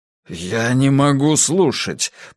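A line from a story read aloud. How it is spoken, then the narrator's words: Mumble. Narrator (Russian): пробормотал Брус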